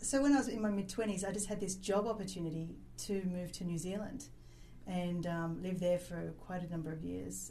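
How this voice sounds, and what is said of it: Australian accent. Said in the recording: “Started off in Australia. That's where I'm born. ... Forgive me for the accent.”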